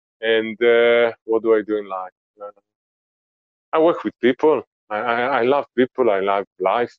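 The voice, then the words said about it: Israeli accent. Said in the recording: “my accent, because I'm originally from Israel”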